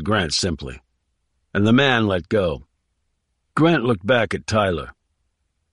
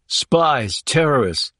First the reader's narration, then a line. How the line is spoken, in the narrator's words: exclaimed Tyler